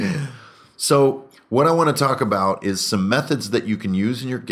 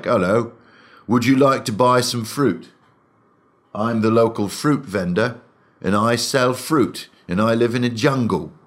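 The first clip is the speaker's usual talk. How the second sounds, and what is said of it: Generic British accent, medieval intonation. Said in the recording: “a sort of a version of a British accent with a medieval intonation”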